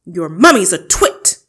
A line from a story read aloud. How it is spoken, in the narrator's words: the Trunchbull bellowed